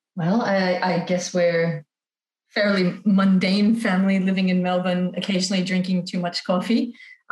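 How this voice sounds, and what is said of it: American accent. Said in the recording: “I've got an American accent”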